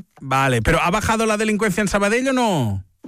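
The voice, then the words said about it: Put-on Basque accent in Spanish. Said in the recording (Catalan): “Per què li parlaves amb accent basc?”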